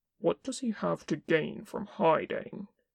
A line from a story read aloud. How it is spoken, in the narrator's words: Kin asked tightly